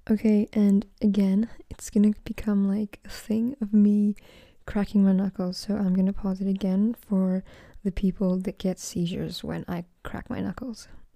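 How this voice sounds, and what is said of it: Excited, energetic voice. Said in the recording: “As you can probably tell from my voice, I am very excited.”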